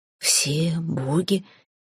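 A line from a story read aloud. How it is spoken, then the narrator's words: Hoarse king asking again. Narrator (Russian): сипло переспросил король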